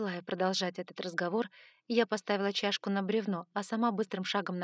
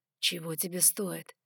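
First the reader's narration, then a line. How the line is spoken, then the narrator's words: Breathed out. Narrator (Russian): выдохнул он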